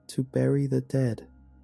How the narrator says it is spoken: my son said in a monotone voice

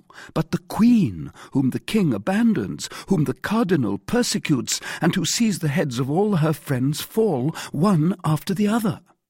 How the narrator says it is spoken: cried D'Artagnan

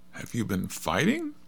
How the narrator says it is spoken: cried Dorothy in a shocked voice

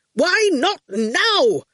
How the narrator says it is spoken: Quentin shouted, losing his calm completely

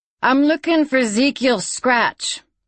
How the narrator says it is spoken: she said loudly

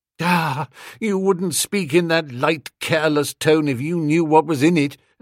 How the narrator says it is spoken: I said with a hollow, mirthless laugh

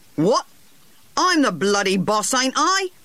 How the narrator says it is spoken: said Harry angrily

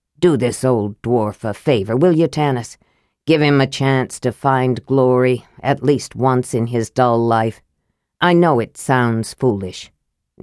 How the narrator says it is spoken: He paused, cleared his throat, then said gruffly

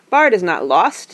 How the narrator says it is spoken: he cried

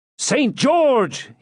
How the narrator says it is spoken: he cried

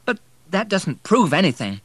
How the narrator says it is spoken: began Anne desperately

